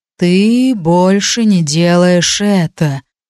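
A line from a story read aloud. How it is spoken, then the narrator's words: Low singsong voice. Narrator (Russian): низким распевным голосом сказал Сигал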